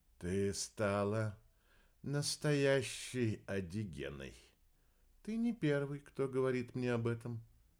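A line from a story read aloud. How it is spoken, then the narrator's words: Muffled, hollow voice. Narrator (Russian): глухо произнес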